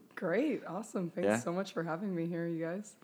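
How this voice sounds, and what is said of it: Hoarse, strained voice. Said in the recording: “clearly my voice is still gone from all the cheering”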